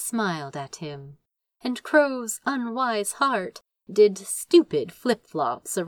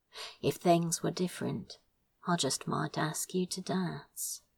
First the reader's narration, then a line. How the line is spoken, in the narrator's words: Crow said quietly